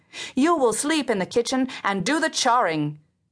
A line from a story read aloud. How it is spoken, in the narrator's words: she called out, for she never used name